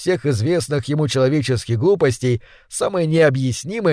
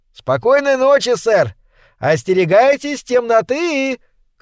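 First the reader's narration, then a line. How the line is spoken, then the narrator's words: Boy shouting after someone. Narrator (Russian): крикнул ему вдогонку мальчуган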